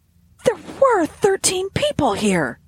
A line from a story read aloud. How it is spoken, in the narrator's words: he exclaimed